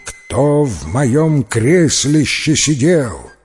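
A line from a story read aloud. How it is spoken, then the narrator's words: Loud rough frightening roar. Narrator (Russian): И взревел большой здоровенный медведище своим громким, грубым, страшным голосищем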